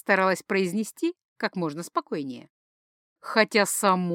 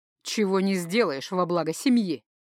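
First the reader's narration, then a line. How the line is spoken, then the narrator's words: Smooth, ingratiating voice. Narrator (Russian): Его вкрадчивый голос мог заставить поверить во что угодно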